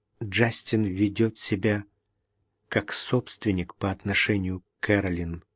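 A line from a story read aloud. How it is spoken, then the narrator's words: Quiet. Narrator (Russian): тихо сказала она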